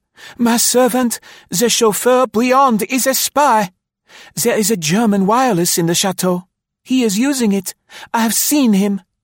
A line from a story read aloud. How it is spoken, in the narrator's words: she gasped